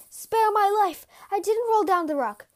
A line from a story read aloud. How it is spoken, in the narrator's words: He cried for mercy